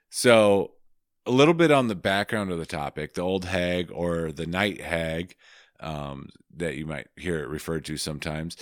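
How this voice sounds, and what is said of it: Husky, hoarse voice. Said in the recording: “sorry for my ultra sexy voice tonight. I am getting over a cold”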